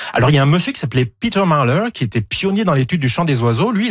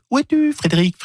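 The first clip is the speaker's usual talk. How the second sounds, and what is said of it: Imitates a songbird's call. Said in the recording (French): “Très belle imitation. Bravo. ... C'est le seul oiseau que j'arrive à imiter.”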